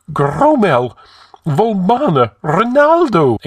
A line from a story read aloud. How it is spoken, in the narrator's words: exclaimed Publius, the high counsellor, wringing his fat hands among the corpses